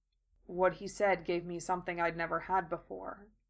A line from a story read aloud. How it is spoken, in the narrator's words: Gaara added in his usual monotone